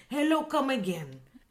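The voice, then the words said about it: Faint put-on Indian accent. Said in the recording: “that's terrible. That's actually very faint compared to how over the top the accent is in the show.”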